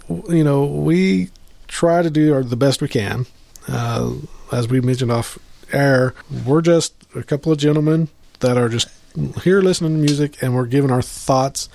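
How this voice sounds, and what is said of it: Kansas accent. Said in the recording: “I'm in Kansas, as you can tell by my accent”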